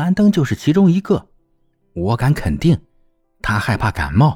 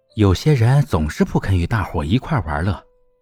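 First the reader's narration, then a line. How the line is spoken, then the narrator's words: Low voice. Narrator (Chinese): 威洛比低声对玛丽安说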